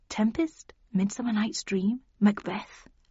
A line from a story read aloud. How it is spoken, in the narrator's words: I muttered